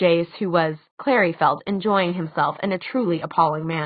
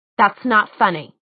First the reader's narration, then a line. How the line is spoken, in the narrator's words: she said so sharply